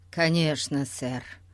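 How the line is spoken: Pitiful mumble. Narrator (Russian): промямлил бедняга Гун, показавшийся вдруг таким жалким

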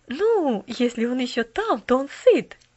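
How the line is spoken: Cheerful interruption. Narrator (Russian): весело прервала миссис Керю

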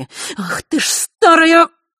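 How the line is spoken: Hissing. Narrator (Russian): прошипела Елена

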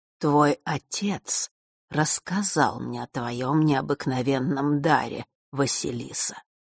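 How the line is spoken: Sudden conspiratorial voice. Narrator (Russian): вдруг произнес Астариус заговорщическим голосом

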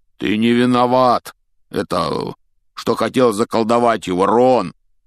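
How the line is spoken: Loud shout over noise. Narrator (Russian): крикнул Хагрид, стараясь перекрыть глухой стук

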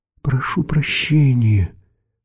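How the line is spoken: Timid but insistent. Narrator (Russian): робко, но настойчиво обратился к ним Вошабль

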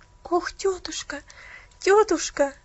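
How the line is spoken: Tearful pleading. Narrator (Russian): взмолилась Пуляна со слезами на глазах

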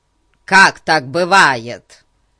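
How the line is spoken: Shouting. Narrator (Russian): закричал Фати

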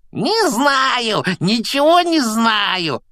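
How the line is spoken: Joyful yelling. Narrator (Russian): радостно заорал Пивз

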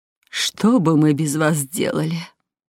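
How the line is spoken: Sigh. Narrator (Russian): вздохнула Хельга

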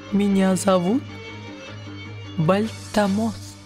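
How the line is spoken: Plain. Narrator (Russian): сказал голос

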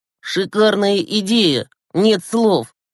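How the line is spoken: Grumbling. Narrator (Russian): проворчал Глеб

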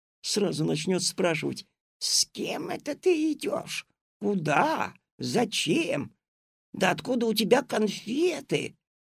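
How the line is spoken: Loud hiss. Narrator (Russian): кто-то громко зашипел

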